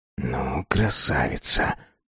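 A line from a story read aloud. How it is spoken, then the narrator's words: Whispered. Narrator (Russian): прошептал он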